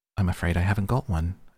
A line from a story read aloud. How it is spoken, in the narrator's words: Alice said in a frightened tone